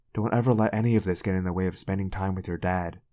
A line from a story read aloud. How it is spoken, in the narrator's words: she said earnestly